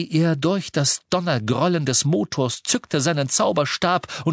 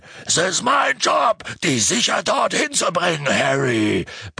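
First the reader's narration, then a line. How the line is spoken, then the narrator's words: Roaring. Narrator (German): brüllte Hagrid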